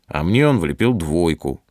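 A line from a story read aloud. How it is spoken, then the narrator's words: Angry reply. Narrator (Russian): сердито отвечает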